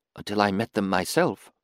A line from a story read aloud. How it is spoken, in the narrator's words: she whispered into the gloom